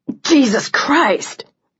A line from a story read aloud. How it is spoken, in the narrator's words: Liam choked out